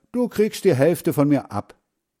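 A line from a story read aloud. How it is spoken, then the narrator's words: Called out. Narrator (German): rief Hans Frieder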